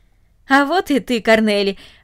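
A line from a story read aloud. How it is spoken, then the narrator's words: Joyful. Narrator (Russian): радостно сказал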